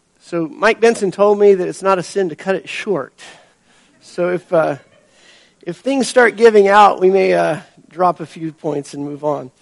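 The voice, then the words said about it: Hoarse voice from a cold. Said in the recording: “I'm recovering from a cold, so my voice is a little iffy this morning.”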